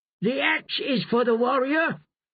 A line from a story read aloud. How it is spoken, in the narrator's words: Rush shouted back